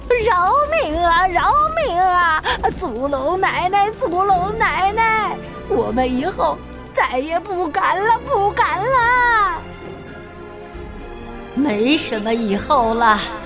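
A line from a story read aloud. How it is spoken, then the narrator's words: Pleading. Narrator (Chinese): 黄鼠狼们哀求着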